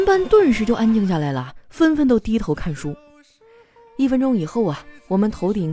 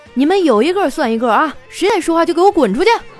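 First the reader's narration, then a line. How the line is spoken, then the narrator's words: Sudden loud shout. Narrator (Chinese): 他突然的大声说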